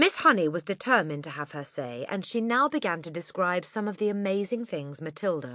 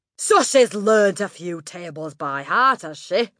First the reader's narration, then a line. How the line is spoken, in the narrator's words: Miss Trunchbull barked